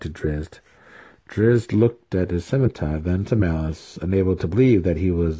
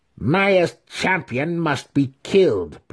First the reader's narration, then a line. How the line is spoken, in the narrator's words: Brisa snarled